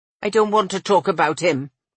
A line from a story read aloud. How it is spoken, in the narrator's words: she grumbled